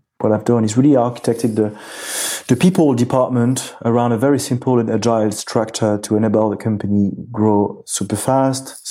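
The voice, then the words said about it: Noticeable non-native English accent. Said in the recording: “obviously I think the accent tells a lot”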